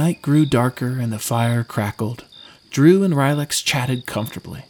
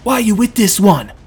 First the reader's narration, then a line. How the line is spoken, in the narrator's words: he yelled